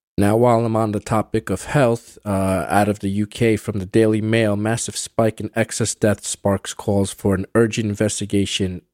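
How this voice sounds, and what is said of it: Stuffy, congested voice. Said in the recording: “I've contracted the conjunctivitis in an eye ... it kind of inflamed my sinusitis ... apologies if I sound a little stuffy”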